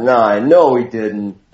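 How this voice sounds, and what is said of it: Bad imitation, vague surfer accent. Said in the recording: “vaguely surfer accent ... It's a terrible imitation of him.”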